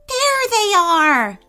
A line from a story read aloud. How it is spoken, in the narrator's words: Aishank exclaimed